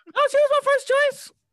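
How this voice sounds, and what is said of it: Voice rises in pitch. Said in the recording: “you lying because your voice went up”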